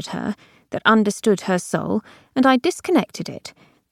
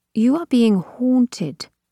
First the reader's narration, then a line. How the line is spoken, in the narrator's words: said Abigail calmly